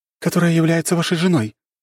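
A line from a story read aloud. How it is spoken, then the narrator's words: Cheerful woman. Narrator (Russian): сказала красноволосая берсеркиша и весело улыбнулась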